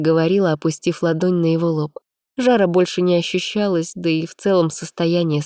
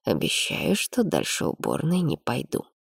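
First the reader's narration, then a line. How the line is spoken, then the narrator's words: Husband's quiet reply. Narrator (Russian): тихо ответил супруг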